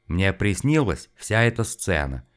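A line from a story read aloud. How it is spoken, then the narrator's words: Dull, resigned mutter. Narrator (Russian): тусклым голосом пробормотал Незин, чувствуя уже, что все это бесполезно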